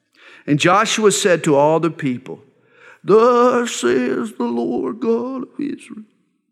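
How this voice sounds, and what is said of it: Imitated old man's voice. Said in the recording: “my old man impersonation, but it didn't work very well”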